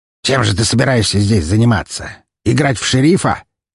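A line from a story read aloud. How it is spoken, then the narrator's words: Distrustful growl. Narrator (Russian): недоверчиво рыкнул меховик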